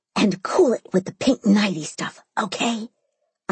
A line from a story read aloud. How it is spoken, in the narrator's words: I whisper yelled